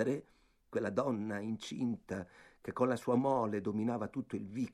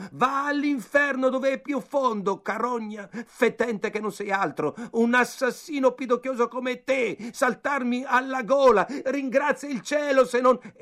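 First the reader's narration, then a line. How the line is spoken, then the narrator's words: Furious shouting. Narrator (Italian): si mise a gridare infuriato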